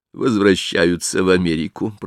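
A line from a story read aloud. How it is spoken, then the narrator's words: Muttered. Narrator (Russian): пробормотал лорд Генри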